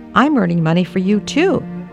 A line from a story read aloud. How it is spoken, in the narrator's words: little six-year-old Bonnie Lee chirped